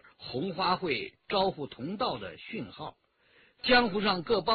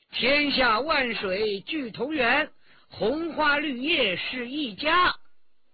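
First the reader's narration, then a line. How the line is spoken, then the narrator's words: Loud chanting. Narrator (Chinese): 新燕高声吟道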